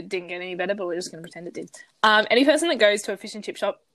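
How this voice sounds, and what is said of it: Congested, nasal voice. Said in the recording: “my voice ... my nose got clogged up for a second ... I'm gonna sound even more nasally than I already do”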